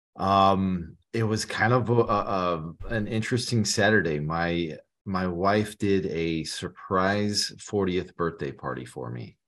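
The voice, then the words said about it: Slightly raspy voice. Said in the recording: “My voice may sound a little raspy today”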